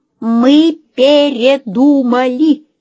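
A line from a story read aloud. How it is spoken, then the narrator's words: Shouting. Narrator (Russian): закричала Лена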